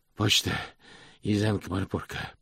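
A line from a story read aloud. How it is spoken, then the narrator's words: Hoarse. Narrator (Russian): прохрипел он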